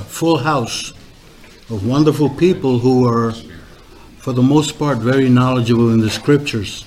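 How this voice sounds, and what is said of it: New York Puerto Rican accent. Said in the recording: “I have this New York Rican accent.”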